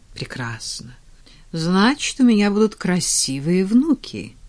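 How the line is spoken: Joyful. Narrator (Russian): радостно предсказала герцогиня

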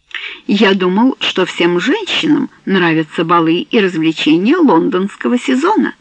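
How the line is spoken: Plain. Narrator (Russian): сказал он

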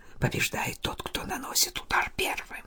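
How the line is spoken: Barely audible whisper. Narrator (Russian): Лоран Гильон еле слышно шепнул мне

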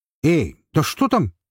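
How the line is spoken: Shouted. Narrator (Russian): крикнул Том

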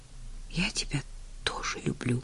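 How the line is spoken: Shy whisper. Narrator (Russian): шепнула Уитни, застенчиво

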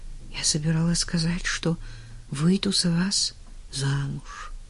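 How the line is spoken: Whispered. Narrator (Russian): она шепнула

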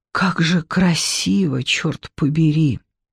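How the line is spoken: Whispered. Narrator (Russian): Артем прошептал

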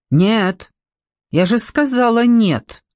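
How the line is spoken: Shout. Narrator (Russian): крикнула Женя

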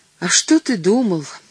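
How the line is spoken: Sighing. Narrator (Russian): вздохнула

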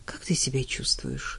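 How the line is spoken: Whisper. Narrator (Russian): шепнул он

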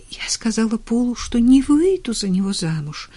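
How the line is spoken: Stammering, sobbing. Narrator (Russian): запинаясь, прорыдала Уитни

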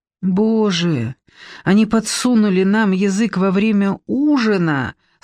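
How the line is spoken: Moaning. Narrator (Russian): стонала Кристина

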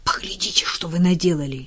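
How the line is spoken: Bewildered whisper. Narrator (Russian): растерянно прошептала Уитни

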